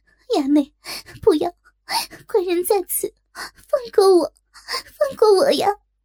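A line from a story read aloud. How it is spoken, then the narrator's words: Crying out. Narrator (Chinese): 若真哭叫道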